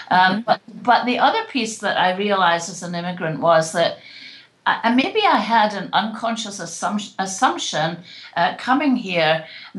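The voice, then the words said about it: British accent. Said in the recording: “being a British living in another country ... I haven't lost my accent”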